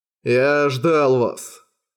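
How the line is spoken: Purring. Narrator (Russian): промурлыкал Зума

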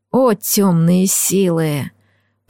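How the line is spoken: Moaning. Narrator (Russian): простонал лорд Люциус

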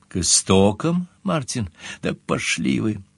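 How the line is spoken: Sighing. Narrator (Russian): Сомервиль вздохнул

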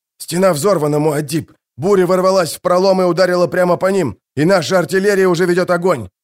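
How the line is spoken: Shouted. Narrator (Russian): прокричал он

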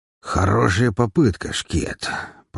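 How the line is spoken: Growl through cigar, brute. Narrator (Russian): прорычал сидящий почти напротив меня бородатый громила, закусив желтоватыми зубами кончик сигары

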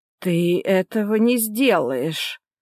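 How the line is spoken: Trembling exclamation. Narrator (Russian): дрогнувшим голосом воскликнула тетя

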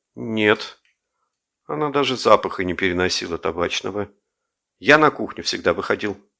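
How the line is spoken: Dejected, puzzled. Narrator (Russian): не скрывая недоумения, сказал уныло

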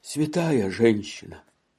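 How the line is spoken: Sighing addition. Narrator (Russian): вздохнув, прибавил

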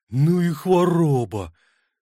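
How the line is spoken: Forced out admiringly. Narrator (Russian): выдавил он восхищенно

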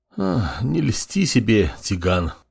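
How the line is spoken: Sigh. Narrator (Russian): вздохнул глава

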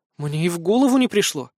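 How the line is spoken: Bewildered sigh. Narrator (Russian): растерянно вздохнула Мэри

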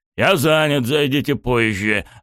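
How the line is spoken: Irritated bark. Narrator (Russian): раздраженно рявкнул Йошира

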